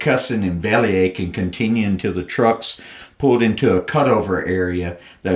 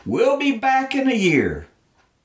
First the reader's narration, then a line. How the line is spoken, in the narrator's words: Another soldier, who'd also been counting the days, sarcastically called out